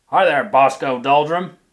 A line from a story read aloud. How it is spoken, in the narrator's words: she shouted in her deep bass voice